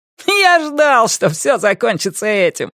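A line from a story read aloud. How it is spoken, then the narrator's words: Laughing loudly. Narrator (Russian): расхохотался Дэйви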